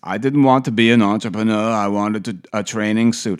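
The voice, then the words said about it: Imitates another person's accent. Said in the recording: “I'm not going to do the accent for the whole thing.”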